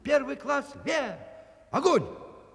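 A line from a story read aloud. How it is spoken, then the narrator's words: Shouting with all strength. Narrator (Russian): Я не выдержал, закричал, что было сил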